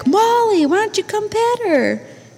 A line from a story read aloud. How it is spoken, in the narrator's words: They just shouted back